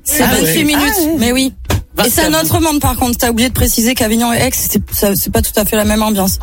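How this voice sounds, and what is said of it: Southern French Avignon accent. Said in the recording (French): “j'ai encore l'accent d'Avignon ... l'accent est resté ... J'ai gardé un peu l'accent d'en bas.”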